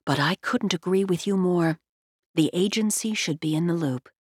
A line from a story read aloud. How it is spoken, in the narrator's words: She leaned forward and whispered